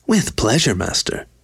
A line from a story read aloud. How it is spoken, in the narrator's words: Slave smiled happily